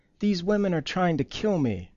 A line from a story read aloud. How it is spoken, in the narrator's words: screamed, choking on her bread